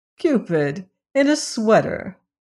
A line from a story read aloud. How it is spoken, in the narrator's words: Adderay exclaimed